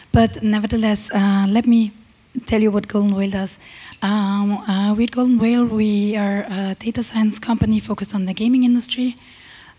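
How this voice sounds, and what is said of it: Slightly shaky, tired voice. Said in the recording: “I already had a lot of talks during the last few days. That's why my voice is a bit shaky.”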